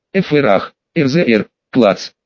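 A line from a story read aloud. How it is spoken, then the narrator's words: Exasperated griffin's growl. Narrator (Russian): грифон рыкнул на всех, так как уже не смог выдержать прессинга своего воспитателя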